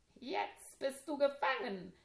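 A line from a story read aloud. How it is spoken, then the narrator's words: Giggling. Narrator (German): kicherte er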